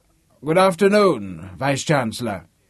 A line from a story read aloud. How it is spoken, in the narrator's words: in a loud, crotchety voice